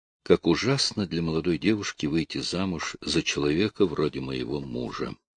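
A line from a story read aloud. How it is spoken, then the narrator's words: Whisper. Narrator (Russian): Она прошептала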